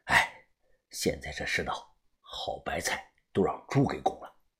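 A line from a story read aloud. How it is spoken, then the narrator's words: Rueful sigh. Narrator (Chinese): 我忍不住摇头感叹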